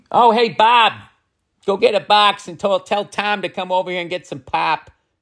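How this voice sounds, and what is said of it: Attempted Midwestern American accent. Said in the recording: “Do a Midwestern one. ... That wasn't even Chicago. That was Milwaukee. ... I feel like it needs work”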